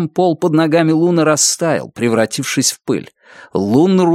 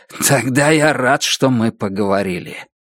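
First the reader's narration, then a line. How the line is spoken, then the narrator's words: Hoarse. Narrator (Russian): Ордан хрипло сказал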